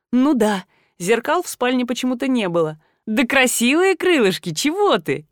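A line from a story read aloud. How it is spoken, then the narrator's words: Giggling. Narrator (Russian): хихикая выдала я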